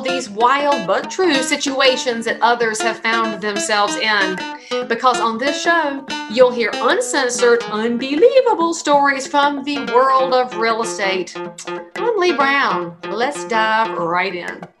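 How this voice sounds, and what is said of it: Southern US accent. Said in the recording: “I'm a good Southern boy too. I love your accent.”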